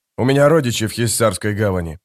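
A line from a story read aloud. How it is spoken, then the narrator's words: Plain. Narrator (Russian): ответил историк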